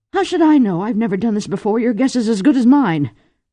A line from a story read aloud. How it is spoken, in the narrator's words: Lady Vorpatril snapped